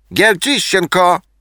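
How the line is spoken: Shouted. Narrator (Russian): крикнул

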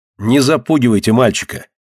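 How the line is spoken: Indignant. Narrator (Russian): Возмущенно сказал Николай

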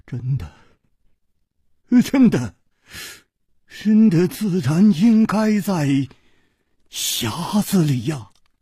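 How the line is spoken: Trembling voice. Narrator (Chinese): 公子金半花的面色 又变了，他颤声说

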